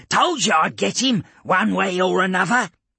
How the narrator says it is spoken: the Medicae cackled

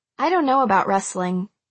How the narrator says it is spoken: I said flatly

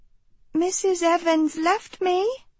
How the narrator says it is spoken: she told the man, pitching her voice high for the Caden behind her

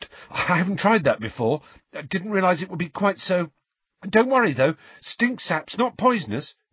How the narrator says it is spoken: he added nervously

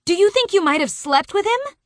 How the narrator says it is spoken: I screech in a panic

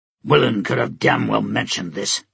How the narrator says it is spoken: Stike growled

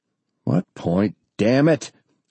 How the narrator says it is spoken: Ernie snapped

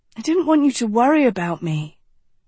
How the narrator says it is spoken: Agatha sighed

